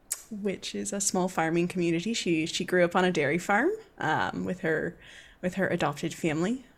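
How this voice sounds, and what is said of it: Attempted Irish accent, sounding New Zealand. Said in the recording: “That was more New Zealand. I'm working on the accent... Irish can be a hard one at times.”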